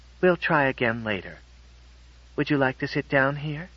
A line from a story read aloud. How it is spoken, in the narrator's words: said Miss Fellows calmly